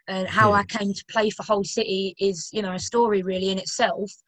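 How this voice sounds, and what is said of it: London English accent. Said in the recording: “as you can tell by my accent, I'm not from, like, Yorkshire ... I'm originally from London”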